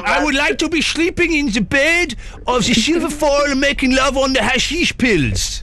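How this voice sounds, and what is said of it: Put-on Dutch accent. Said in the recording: “Okay, the Dutch. Okay. The Dutch is... ... the accent game”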